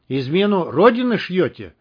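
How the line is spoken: Angry question. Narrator (Russian): сердито спросил прапорщик

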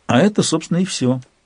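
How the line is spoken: Slightly sad admission. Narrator (Russian): чуточку грустно призналась Канила

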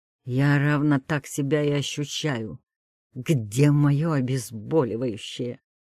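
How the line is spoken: Sighing, suddenly hoarse and warm. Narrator (Russian): Роман вздыхает, и голос его внезапно становится хриплым и теплым

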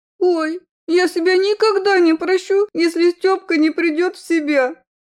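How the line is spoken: Whimpering. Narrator (Russian): Захныкала Алинка

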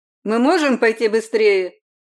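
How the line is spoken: Dismissive. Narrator (Russian): обронила я с пренебрежением

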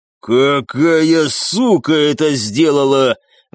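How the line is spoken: Roar. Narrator (Russian): взревел он

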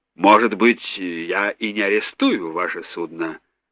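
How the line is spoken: Thoughtful. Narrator (Russian): задумчиво проговорил сэр Макдональд

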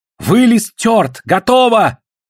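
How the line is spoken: Sudden group shout. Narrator (Russian): вдруг закричали дружно гольды

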